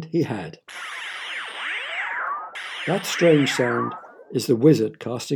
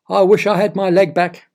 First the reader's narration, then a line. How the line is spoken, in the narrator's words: Straight away, Oliver shouted